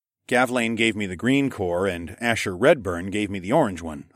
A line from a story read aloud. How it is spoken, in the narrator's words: I said